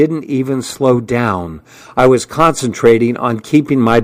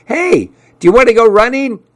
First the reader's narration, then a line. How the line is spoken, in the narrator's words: he yelled out at me